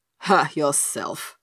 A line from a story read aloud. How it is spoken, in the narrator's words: grunted Skamperoo wrathfully